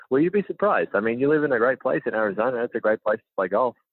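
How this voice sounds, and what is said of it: Australian accent. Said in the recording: “he has an accent ... born and raised in Melbourne, Australia”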